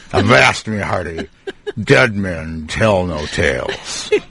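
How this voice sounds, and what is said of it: Pirate character voice. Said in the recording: “you make a pretty good pirate ... That's a little too good ... Too good of an impression.”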